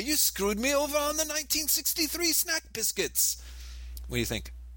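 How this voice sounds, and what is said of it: Imitated British accent. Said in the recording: “my Alan Moore accent”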